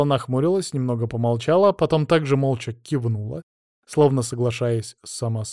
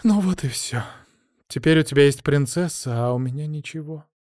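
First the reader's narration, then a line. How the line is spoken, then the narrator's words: Shaky sigh, nearly calm. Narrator (Russian): Кристина судорожно вздохнула и почти спокойно сказала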